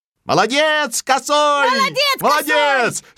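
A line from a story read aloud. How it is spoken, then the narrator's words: Hares shouting in unison. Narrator (Russian): закричали все зайцы в один голос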